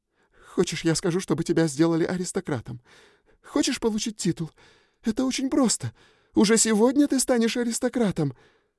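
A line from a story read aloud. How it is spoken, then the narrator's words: Sobbing, trembling. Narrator (Russian): всхлипывая и дрожа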